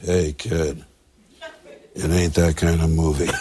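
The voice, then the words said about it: Harrison Ford impression. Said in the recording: “Mark Hamill can do a pretty good Harrison Ford impression”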